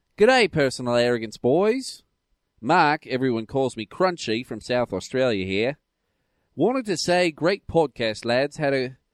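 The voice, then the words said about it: Put-on Australian accent. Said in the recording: “I have to read this in an Australian accent”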